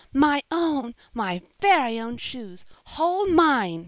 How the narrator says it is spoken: she cried

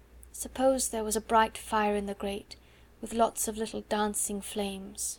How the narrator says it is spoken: she murmured

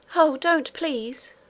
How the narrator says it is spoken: cried Irene

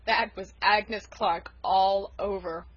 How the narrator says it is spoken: chuckled Uncle Roger

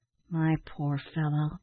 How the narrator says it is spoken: said Ned in a soothing tone

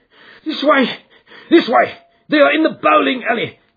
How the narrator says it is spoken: cried the stranger

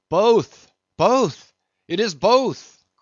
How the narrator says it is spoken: cried Daggoo again with a joyful shout

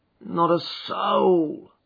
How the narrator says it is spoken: groaned Hall Pycroft

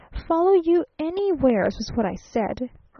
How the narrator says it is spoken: persisted the traveling salesman, almost irritably

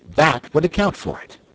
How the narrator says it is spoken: cried Betsy

